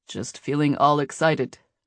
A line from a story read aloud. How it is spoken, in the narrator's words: Nate said stiffly